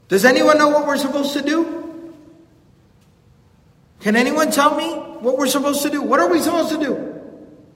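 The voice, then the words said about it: Loud panicked shouting. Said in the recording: “screaming loud... Like just panicking.”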